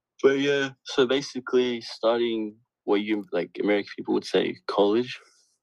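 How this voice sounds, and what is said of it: Australian accent. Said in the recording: “I'm from Australia. So, like my accent, sorry.”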